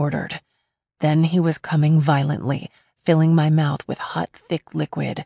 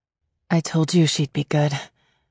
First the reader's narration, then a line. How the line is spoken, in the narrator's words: Peyton said quietly